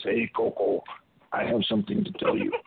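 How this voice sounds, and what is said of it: Big, deep voice. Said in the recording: “in a big, deep voice.”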